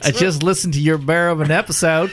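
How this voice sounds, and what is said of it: Exaggerated stereotypical Southern accent. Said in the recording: “I'm just going to do a horribly stereotypically Southern accent.”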